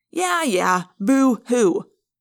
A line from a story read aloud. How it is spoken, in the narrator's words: Marco sneered